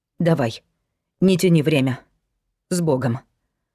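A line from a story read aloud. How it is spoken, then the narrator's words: Mother's firm blessing. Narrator (Russian): Благословила мать твердым голосом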